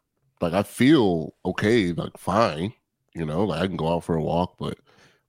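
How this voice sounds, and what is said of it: Congested, off-sounding voice. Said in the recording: “I'm playing hurt like Embiid. I think it's a sinus thing ... my voice is just not where I need to be”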